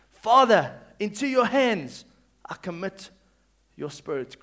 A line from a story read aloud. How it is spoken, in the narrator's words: Jesus called out with a loud voice